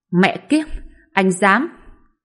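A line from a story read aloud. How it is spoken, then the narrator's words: Angry shout. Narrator (Vietnamese): Vương Gia Tuấn phẫn nộ quát giống lên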